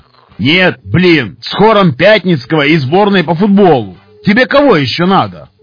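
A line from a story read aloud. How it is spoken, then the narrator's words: Hermit shouting from below. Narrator (Russian): Прокричал снизу отшельник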